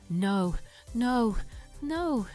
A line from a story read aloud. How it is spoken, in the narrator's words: she sobbed